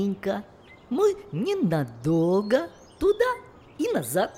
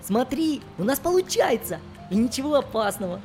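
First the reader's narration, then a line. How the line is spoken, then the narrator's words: Joyful. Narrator (Russian): Радостно сказал Фафа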